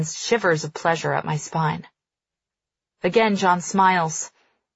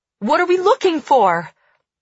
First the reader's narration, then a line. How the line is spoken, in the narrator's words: I shout over the din